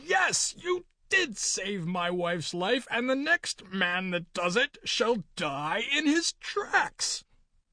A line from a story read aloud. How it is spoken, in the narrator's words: he shouted